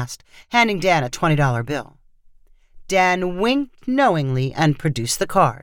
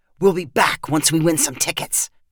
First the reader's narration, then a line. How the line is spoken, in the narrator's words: Devin said in a conspiratorial voice